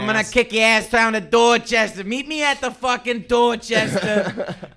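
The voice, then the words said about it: Put-on Boston accent. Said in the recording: “that Boston ... you're the expert at the accent, how many syllables are in ass when you're from Boston?”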